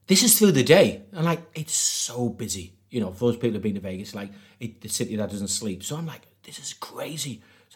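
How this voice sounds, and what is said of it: Newcastle (Geordie) English accent. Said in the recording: “I'm from Newcastle”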